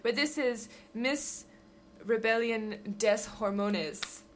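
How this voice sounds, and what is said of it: Put-on French accent. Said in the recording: “You said it in a really Spanish way there... That was my French accent.”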